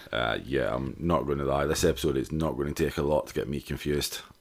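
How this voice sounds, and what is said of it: Raspy Scottish-accented male voice. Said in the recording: “Not only is it a Scottish accent, it's very raspy now.”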